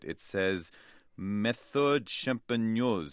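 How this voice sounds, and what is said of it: Mock French accent, not a good one. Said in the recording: “if that's my French accent, or maybe it's not a good one.”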